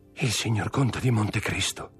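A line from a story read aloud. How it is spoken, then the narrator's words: Murmured. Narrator (Italian): mormorò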